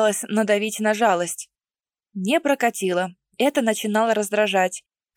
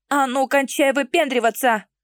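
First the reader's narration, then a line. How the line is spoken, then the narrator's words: Full-lunged bellow. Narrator (Russian): гаркнула во всю мощь легких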